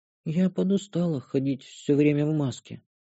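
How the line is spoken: Quiet. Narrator (Russian): добавила Шантри тихо

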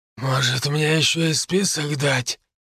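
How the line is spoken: Hoarse male reply. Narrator (Russian): хрипло отозвался мужчина

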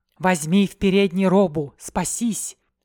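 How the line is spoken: Whispered. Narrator (Russian): шепнула

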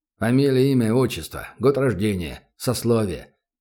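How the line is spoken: Curt mutter. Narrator (Russian): буркнул работник НКВД

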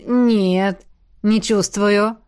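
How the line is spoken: Mumble. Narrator (Russian): промямлил

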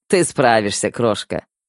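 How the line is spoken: Chuckling. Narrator (Russian): хохотнул Седой

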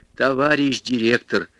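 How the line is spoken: Sudden fervent pleading. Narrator (Russian): вдруг горячо взмолилась массовичка

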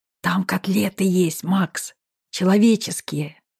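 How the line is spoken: Loud smiling whisper. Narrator (Russian): улыбающийся Влад громким шепотом произнес

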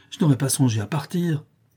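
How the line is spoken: Exclaim. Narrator (French): s'écria Joey

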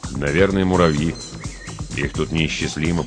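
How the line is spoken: Muttering. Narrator (Russian): пробормотал

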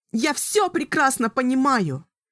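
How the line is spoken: Young woman shouting. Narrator (Russian): кричала юная колдунья

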